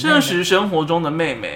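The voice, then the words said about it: Sudden odd unplaceable accent. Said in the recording (Chinese): “不知道为什么突然有个不知道哪来的口音”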